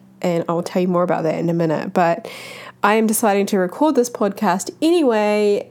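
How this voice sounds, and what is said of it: Husky, slightly off voice. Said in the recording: “my voice is a little bit husky or off... it's super sexy right now because I am just coming out of having the flu for a week”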